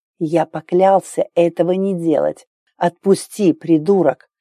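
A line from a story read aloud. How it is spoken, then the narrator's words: Hoarse gurgling, prince. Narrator (Russian): Голос принца хрипло булькал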